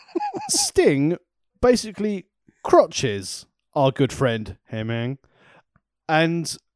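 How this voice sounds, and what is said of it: Imitates another person's voice. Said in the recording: “doing a Scott Hall impression”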